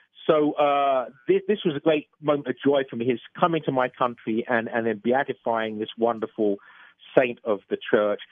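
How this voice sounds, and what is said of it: English accent. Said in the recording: “being an Englishman, as you probably gathered from my accent”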